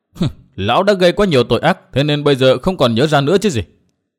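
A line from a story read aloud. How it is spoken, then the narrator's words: Cold sneering laugh. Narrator (Vietnamese): Nguyên Bình cười nhạt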